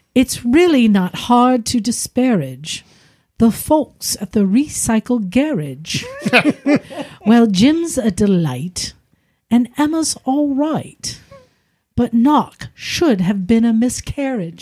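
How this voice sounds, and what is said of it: Put-on British accent. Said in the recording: “to be read in a British accent”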